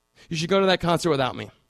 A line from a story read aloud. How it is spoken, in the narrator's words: had said